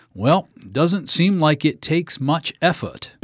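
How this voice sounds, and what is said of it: Imitated Maine accent. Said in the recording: “I'm from Maine, so she had a Maine accent.”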